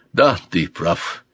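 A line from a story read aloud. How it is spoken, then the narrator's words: Sigh. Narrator (Russian): вздохнул Дон Гонсало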